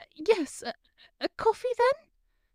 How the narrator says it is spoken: she sputtered

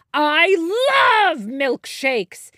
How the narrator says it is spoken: shouted

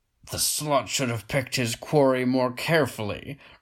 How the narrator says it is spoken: roared the victor in a mocking baritone growl

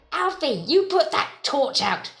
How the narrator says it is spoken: she snapped

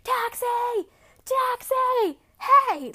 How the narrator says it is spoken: yelling at this taxi

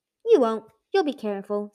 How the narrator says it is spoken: Secret Keeper said firmly

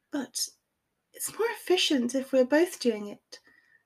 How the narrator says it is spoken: she said in a cajoling voice

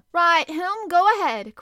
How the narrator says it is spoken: cried Commander Farragut

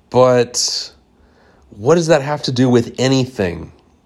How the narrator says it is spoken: I exclaimed

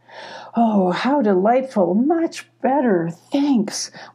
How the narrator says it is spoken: sighed in relief, cracking a smile

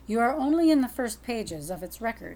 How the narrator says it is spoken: he said

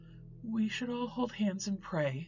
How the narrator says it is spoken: Lily timidly suggested

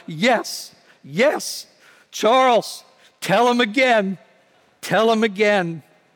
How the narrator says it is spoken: his grandfather called out

